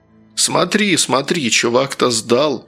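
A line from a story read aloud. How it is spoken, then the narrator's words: Laughing. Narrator (Russian): хохотнул рыжий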